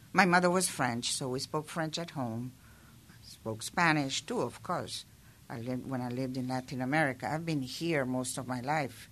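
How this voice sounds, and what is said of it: Mild foreign accent. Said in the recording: “you have what we all consider an accent ... I do have an accent, but it's not completely defined”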